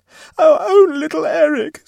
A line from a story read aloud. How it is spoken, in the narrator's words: screamed Mrs